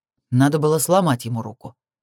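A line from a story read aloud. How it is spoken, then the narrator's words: Joyless snort. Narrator (Russian): хмыкнул Крис невесело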